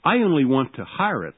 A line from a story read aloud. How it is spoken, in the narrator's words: said I